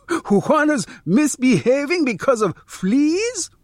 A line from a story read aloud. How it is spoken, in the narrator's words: Joaquin laughs